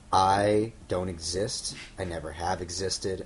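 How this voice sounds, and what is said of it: Imitates another person's voice. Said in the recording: “I've actually been throwing my voice ... to do my Damon voice.”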